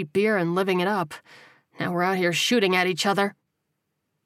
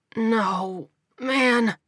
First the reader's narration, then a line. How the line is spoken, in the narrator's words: he croaked